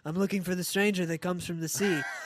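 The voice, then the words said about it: Imitates another person's voice. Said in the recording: “your Ben Affleck impression ... My Ben Affleck impression is looking for a stranger”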